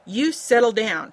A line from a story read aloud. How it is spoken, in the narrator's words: she ordered in a firm voice